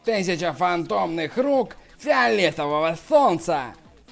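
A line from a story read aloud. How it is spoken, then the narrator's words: Hoarse shout. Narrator (Russian): Сюань Юй хрипло закричал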